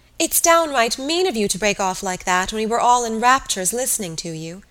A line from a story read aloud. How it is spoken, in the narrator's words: cried Mary Jane